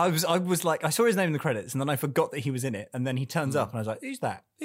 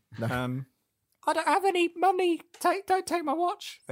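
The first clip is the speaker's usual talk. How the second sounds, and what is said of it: Imitates another person's voice. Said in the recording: “That's my Bob Balaban impression”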